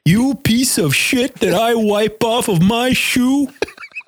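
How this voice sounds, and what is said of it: Imitates another person's voice. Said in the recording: “That's a really good impersonation. ... I've impersonated him a lot.”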